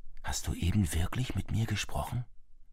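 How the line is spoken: Whisper. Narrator (German): flüstert er dem Telefon zu

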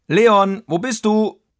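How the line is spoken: Strong voice calling from afar. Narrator (German): rief eine kräftige Stimme aus der Ferne

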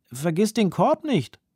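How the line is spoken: Grandfather calling out. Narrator (German): ruft Opa

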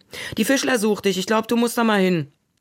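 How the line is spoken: Called out. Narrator (German): rief er

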